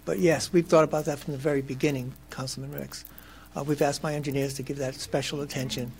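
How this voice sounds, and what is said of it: Raspy voice. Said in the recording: “apologize for my voice. I got this raspy voice here”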